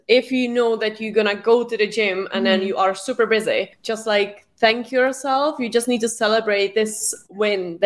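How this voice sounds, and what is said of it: Mixed Scottish, British and Czech accent. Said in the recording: “I love her accent too, because it's like, it's so like weird. Scotland mixed with like British, mixed with like Czech Republic. It's very special.”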